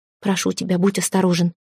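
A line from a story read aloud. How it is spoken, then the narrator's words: Whisper. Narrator (Russian): прошептала она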